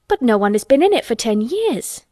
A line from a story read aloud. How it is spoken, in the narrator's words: cried Colin